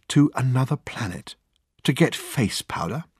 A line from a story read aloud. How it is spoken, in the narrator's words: said Dirk in a whisper